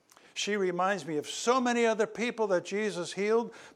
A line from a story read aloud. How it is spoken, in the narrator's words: Bartholomew shouted